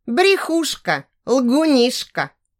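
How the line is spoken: Loud child wailing. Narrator (Russian): Маленькая Катя громко заревела

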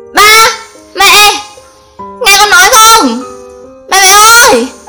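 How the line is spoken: Hoarse screaming. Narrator (Vietnamese): Mặt mình gào khản cả cổ

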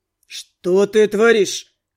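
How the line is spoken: Growl. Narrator (Russian): рыкнул блондин

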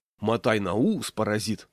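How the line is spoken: Plain. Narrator (Russian): сказала

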